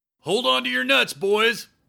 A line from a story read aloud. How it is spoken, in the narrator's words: he yelled through his helmet lens